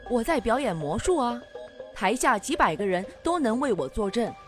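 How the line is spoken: Calm, offhand. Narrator (Chinese): 魔术师淡淡的说

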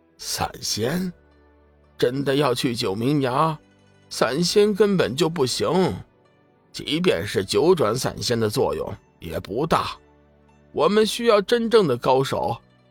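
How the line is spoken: Dismissive laugh. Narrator (Chinese): 醉仙撇了撇嘴巴，笑道

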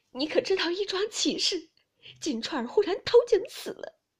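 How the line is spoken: Crying. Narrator (Chinese): 王夫人点头哭道

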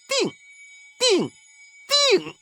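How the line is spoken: Loud. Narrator (Chinese): 大声说

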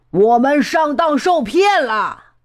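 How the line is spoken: Pirates shouting. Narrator (Chinese): 海盗们叫起来

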